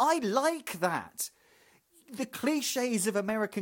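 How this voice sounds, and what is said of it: Usual voice. Nothing is said of it.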